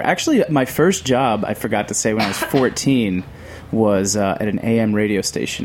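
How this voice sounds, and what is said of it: Polished radio voice. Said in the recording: “You have the best radio voice.”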